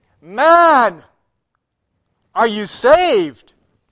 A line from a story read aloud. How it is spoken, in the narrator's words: He called out to me